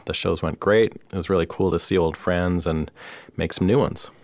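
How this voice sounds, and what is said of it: Slightly hoarse voice. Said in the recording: “lost my voice, which is why I'm a little hoarse still, although I'm mostly recovered”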